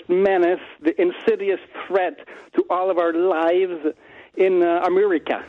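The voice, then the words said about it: Inspector Clouseau-like French accent. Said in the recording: “You sound like Inspector Clouseau.”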